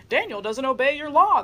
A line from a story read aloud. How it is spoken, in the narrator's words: they shouted